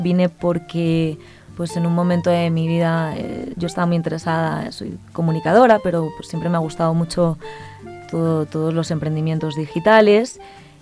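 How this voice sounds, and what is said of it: Spanish accent from Spain. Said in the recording (Spanish): “ese acento español”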